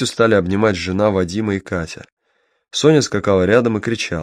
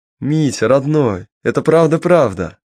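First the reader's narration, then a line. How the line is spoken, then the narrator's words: Joyful and loud. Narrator (Russian): радостно и громко сказала Катя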